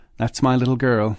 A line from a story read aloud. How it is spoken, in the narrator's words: I said